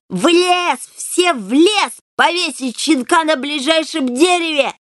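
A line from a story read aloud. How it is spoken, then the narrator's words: Shrill hateful yell. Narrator (Russian): с ненавистью визгливо заорал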